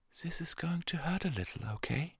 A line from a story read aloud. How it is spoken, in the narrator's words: she told the injured Pegasus soothingly